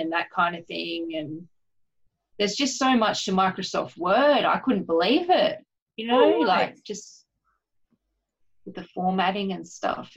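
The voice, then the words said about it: Australian accent. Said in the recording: “I was thinking about your accent and I was like, you sound like you're in Australia.”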